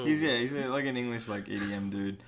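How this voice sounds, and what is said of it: Put-on accent. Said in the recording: “I don't know why I was doing that accent.”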